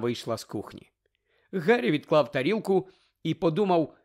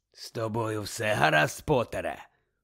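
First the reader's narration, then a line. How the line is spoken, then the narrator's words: Rasping voice. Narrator (Ukrainian): прохрипів Муді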